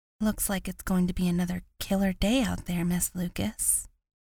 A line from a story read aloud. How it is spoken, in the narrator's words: Ava muttered as she passed